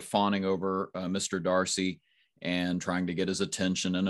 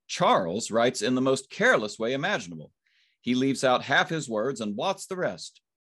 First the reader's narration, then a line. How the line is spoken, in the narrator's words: cried Miss Bingley